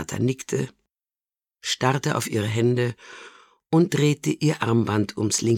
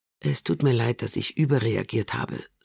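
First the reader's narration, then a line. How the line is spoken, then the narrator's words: Softly. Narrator (German): sagte Donata leise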